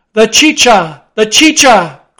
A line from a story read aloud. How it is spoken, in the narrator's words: cried Don Pedro